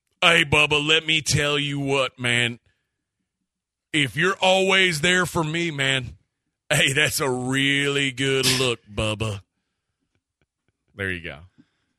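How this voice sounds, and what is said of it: Bubba character voice. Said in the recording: “you have to do the Bubba voice”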